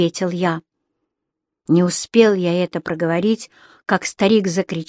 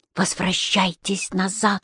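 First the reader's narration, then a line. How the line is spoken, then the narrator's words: Whispered. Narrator (Russian): шептал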